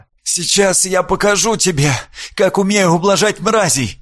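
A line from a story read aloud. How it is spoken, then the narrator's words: Hoarse promise. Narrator (Russian): хрипло пообещала Карина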